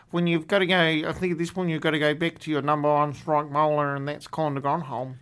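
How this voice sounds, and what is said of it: Bad put-on Australian accent. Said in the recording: “the worst Australian accent I've ever done in my life”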